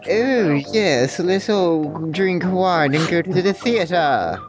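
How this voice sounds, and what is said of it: Obnoxious posh accent. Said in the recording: “an obnoxious, posh accent”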